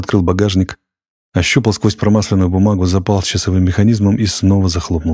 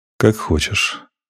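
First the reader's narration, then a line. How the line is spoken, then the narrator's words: Cold. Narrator (Russian): холодно сказал Максим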